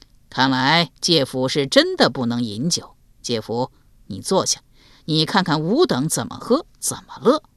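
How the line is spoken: Chuckling. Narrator (Chinese): 嘿嘿一笑，道

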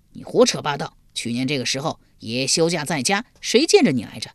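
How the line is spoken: Angry. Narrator (Chinese): 钱明一脸恼怒地说

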